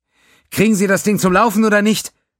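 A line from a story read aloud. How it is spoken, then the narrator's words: Barking. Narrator (German): bellte Diamond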